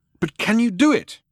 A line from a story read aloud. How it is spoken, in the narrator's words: cried Loonqual